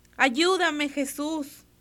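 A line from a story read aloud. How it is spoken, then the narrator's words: Shouting. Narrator (Spanish): gritó Pedro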